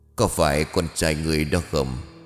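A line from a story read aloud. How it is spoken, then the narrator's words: Deep gruff cold voice. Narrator (Vietnamese): giọng nói ồm ồm lạnh lùng của người nọ đó vang lên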